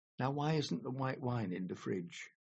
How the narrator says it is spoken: sighed

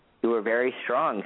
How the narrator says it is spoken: said Tom

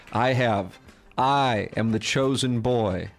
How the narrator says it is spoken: Deadline Doug slowly stood up and proclaimed

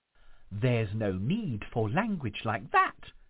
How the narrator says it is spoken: exclaimed the ghost

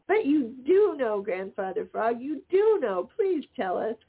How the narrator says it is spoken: cried the Merry Little Breezes

